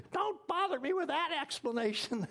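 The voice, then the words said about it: Put-on old grandmother voice. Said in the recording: “She didn't really talk like that, but that's my grandma voice.”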